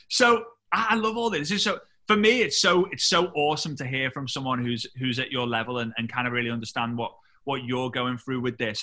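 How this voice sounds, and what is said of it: English British accent. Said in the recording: “We just want people with your accent. So awesome ... I'd love to have an English person in my team. I would love to have a Brit”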